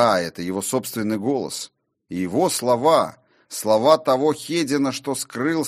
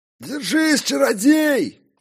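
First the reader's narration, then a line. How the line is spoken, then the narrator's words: Loud bark into ear. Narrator (Russian): гаркнул в ухо познавшему тьму все тот же бородач, судя по всему, рыбацкий старшина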